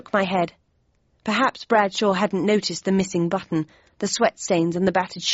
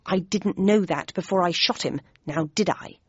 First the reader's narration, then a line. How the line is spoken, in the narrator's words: replied Bradshaw in an aggrieved tone